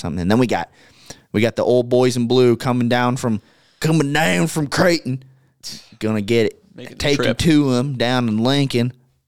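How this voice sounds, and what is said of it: Put-on Southern accent. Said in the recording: “I don't know why I'm talking with Southern accent. ... Now I'm stuck in it. I can't get it off my tongue.”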